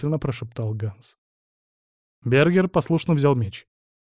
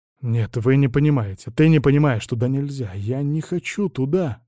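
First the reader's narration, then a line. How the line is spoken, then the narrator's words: Loud whisper. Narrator (Russian): громко прошептал он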